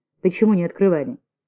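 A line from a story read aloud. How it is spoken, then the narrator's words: Stern question. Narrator (Russian): Строго спросил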